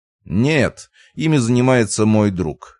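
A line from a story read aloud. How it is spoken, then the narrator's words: Snorting hmph. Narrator (Russian): хмыкнул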